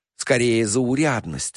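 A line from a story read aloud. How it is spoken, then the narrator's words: Sighing. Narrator (Russian): вздохнул артист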